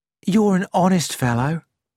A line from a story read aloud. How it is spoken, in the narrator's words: said Mrs